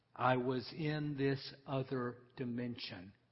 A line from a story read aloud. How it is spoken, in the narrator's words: Morrison says